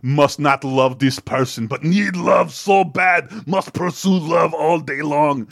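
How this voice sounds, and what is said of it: Robotic Terminator-style voice impression. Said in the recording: “love your accent, spot on. ... No notes.”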